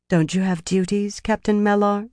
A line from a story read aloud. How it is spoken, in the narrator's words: Elaine said coolly